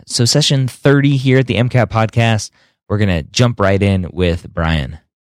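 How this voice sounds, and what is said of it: Raspy, sick-sounding voice. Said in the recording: “sorry for my voice. I am sick. ... I've been dealing with a raspy throat”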